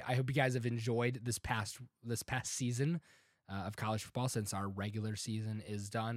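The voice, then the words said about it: Sounds a little ill, sick voice. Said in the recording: “if I sound a little ill. ... I'm recovering from a cold.”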